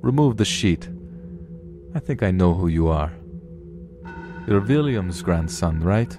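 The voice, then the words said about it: Character voice with Russian accent. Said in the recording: “the voice had a Russian accent”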